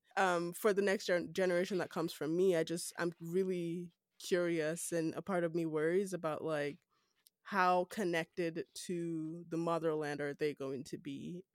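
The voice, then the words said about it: Nigerian accent. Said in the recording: “I'm Nigerian. I still have my Nigerian accent.”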